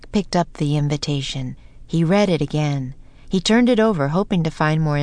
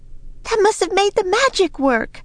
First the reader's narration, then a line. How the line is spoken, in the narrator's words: cried Annie